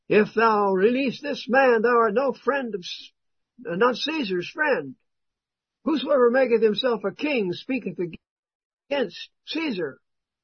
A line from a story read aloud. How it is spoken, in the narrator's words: the Jews cried out, saying